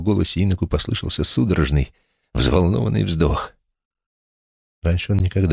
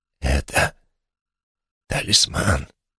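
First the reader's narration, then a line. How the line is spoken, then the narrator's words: Admiring, slightly hoarse. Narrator (Russian): произнес Улисс восхищенно и от волнения немного хрипло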